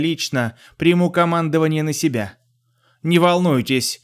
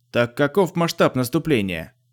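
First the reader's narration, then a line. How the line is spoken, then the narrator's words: Indifferent question. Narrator (Russian): безразличным тоном спросил Шин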